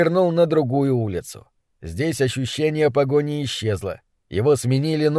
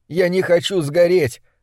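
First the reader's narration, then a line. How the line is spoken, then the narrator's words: Screaming. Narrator (Russian): закричал он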